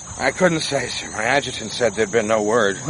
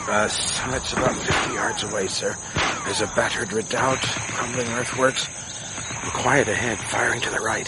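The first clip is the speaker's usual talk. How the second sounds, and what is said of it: Whispering. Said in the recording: “Why are you whispering”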